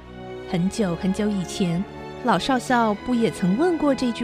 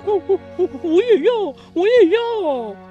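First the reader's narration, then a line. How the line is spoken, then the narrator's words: Excited cooing. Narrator (Chinese): 鸽子听了也兴奋地咕咕叫说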